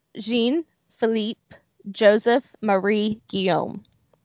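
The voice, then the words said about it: Badly pronounced French names. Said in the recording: “My butchering of French right there. ... That is my horrible pronunciation of what probably should sound French.”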